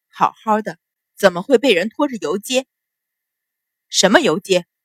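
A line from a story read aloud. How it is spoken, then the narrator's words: Angry, through gritted teeth. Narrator (Chinese): 秦氏 心底怒火蹭蹭的上窜，咬了咬牙，皱眉道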